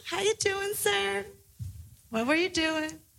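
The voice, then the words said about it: Fake Southern accent. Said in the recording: “fake a Southern accent.”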